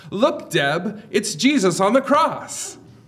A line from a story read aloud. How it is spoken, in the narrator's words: exclaiming